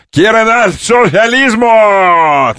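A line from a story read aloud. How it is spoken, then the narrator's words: Shouting. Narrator (Russian): кричал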